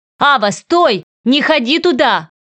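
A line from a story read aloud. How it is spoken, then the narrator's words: Shouting from behind. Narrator (Russian): кричали сзади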